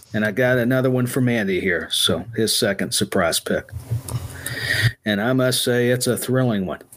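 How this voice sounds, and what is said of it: Flat, monotone, low-energy delivery. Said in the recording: “I got to be more dramatic, bring up the energy. Oh, my goodness, I'm getting too monotone here.”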